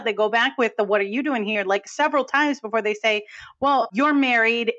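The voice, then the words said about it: New England accent. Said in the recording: “you'll hear my New England accent. I can't hold it back anymore when I talk about this movie. It just comes out.”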